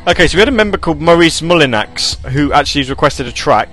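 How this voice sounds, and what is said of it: English accent. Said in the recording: “I love your accent. ... I'm English. ... We English people sound like this all the time.”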